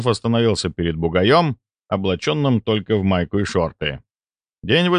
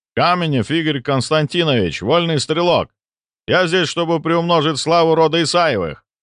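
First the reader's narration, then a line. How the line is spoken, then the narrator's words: Loud male shout. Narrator (Russian): громко крикнул мужчина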